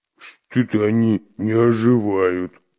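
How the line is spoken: Offended deep bass. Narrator (Russian): обиженно пробасил Буль-Буль

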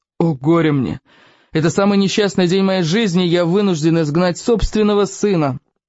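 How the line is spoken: Groaning lament. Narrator (Russian): простонал Стоик

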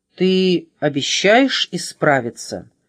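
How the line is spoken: Stern question. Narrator (Russian): спросил его Плюс строго

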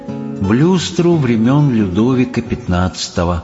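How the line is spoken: Sad. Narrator (Russian): печально сказала королева

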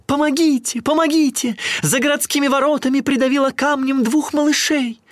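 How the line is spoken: Woman shouting. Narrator (Russian): какая-то женщина закричала

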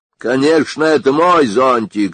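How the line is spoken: Angry. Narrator (Russian): сердито сказал Сопи

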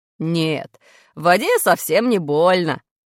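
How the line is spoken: Laughing. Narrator (Russian): смеялся брат

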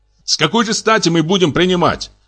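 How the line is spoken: Shouting. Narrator (Russian): кричал фон Штенберг

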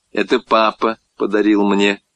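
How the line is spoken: Plain. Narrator (Russian): сказала мама

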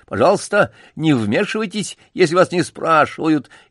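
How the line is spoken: Zealous servile shout. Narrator (Russian): Только один бутон, движимый лакейским усердием выскочки, закричал

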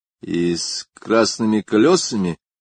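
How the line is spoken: Thoughtful question, young man. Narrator (Russian): спросил молодой человек, задумчиво

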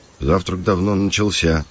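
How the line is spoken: Muttering. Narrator (Russian): пробурчал Кирилл

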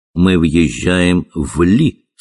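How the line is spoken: Plain. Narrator (Russian): сказал мой приятель

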